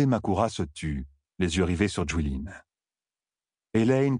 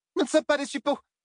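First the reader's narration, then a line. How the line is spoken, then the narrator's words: Exclaimed. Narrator (French): s'écria Lucie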